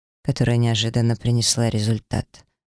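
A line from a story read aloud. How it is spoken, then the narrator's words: Gloomy reply. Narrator (Russian): мрачно отозвался инквизитор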